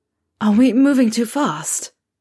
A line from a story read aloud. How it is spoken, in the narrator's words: Harry said, gasping for breath